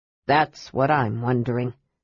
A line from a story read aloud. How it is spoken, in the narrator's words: said Flint grimly